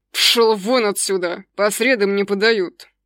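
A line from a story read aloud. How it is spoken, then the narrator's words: Hiss. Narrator (Russian): прошипел Аджим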